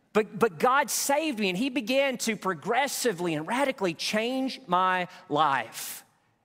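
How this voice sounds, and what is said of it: Country accent. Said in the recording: “had the worst country accent. You think I got one now?”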